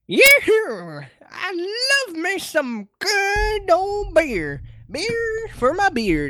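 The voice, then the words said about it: Bad cartoon old man character voice. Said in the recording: “my terrible Master Roshi impression”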